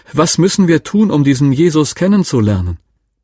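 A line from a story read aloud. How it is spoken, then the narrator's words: Sudden loud woman's call. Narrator (German): rief eine Frau plötzlich ganz laut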